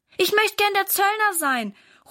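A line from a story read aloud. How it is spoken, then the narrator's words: Calling out. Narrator (German): ruft Valentin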